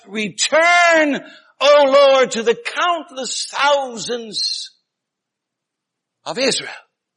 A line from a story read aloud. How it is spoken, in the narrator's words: Moses would shout